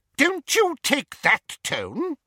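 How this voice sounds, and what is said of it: Shrill voice of Aunt Petunia. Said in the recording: “began Aunt Petunia in a shrill voice”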